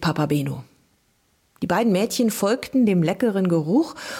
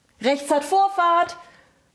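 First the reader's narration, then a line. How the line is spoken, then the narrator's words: Bellowed. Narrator (German): brüllte er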